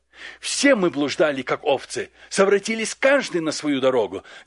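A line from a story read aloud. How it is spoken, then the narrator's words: Plain, prophet. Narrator (Russian): говорит пророк Исаия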